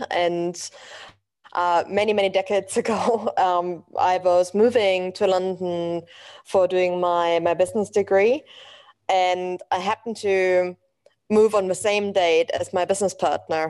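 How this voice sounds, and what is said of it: German accent. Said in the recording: “as you can probably tell from my accent, I'm originally from Germany.”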